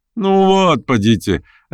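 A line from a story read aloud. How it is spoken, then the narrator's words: Laughing. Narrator (Russian): рассмеялся Петр Степанович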